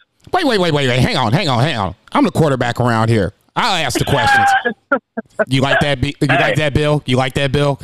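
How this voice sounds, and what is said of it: Imitates another person's voice. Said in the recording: “That's my Bill impersonation.”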